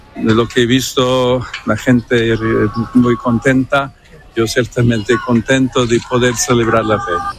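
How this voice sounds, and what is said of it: Peruvian Spanish accent with American tinge. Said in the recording (Spanish): “el acento ... Ese acento peruano, sí, con todo de Estados Unidos ... es muy característico”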